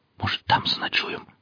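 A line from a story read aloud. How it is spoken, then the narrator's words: Whisper. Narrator (Russian): прошептал Алексей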